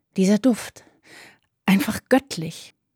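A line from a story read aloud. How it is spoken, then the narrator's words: Breathy whisper. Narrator (German): hauchte sie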